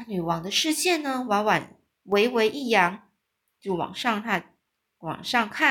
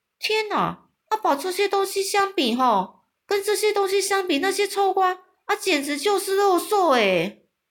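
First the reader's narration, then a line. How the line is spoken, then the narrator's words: Shouting. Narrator (Chinese): 他大叫着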